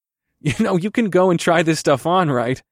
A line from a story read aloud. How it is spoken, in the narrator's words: I chuckled